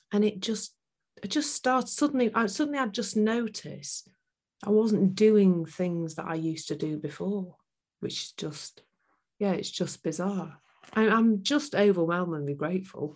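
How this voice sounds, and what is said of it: Emotional, tearful voice. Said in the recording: “I'm getting a little bit emotional ... tears are just normal”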